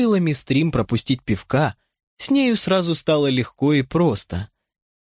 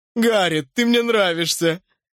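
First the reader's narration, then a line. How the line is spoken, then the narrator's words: Bursting with laughter. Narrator (Russian): Она расхохоталась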